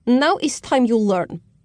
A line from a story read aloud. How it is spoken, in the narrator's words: woman snapped